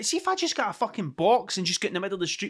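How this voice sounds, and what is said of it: Working-class Scottish accent. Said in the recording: “because of my accent ... it's too working class Scottish to be taken seriously”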